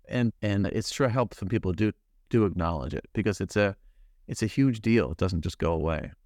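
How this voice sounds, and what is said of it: American English accent. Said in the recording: “I can hear, I'm sure the audience can hear from your accent that you're from the US.”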